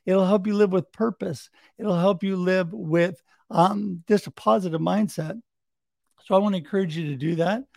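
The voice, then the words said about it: Strained, hoarse-sounding voice. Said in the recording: “losing my voice”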